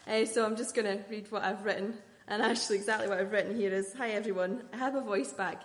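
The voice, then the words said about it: Shaky, recovering voice, slightly emotional. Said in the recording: “I do have a voice back, but still a bit shaky sometimes ... I feel a little bit emotional.”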